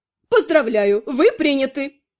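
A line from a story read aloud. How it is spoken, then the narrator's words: Joyful chuckling announcement. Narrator (Russian): радостно хохотнув, заявила Летиция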